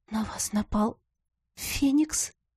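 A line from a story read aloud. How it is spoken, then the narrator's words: Whispered. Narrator (Russian): прошептала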